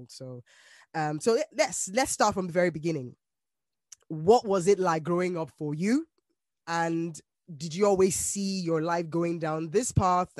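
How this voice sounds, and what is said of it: Slightly congested, stuffy voice. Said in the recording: “You guys probably can hear that I have a little bit of a cold. ... It's just a bit of a cold.”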